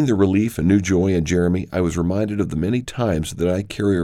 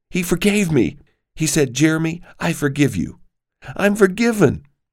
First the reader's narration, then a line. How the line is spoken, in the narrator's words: Excitedly, he told us